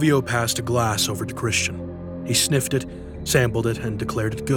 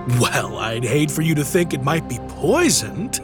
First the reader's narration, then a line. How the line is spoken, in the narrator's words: laughed Christian